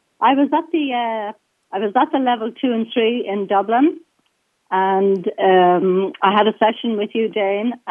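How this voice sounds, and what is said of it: Irish accent. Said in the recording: “I hope she has an Irish accent ... I think I do”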